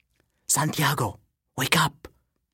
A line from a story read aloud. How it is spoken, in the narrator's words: she whispers loudly